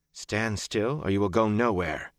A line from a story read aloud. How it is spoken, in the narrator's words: she said calmly